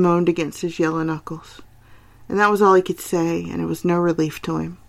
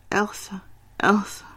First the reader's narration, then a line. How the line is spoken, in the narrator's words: groaned, right against his hand